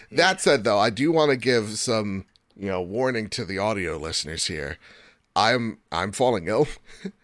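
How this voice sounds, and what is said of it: Hoarse, failing voice. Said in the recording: “I'm losing my voice. The allergies are coming at me hard. I got a huge sinus migraine, losing my voice.”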